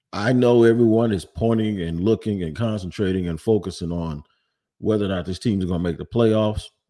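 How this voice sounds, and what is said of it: Slightly altered, sick-sounding voice. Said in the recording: “if you notice, my voice is a little bit different. I'm dealing with some kind of bug that's going around”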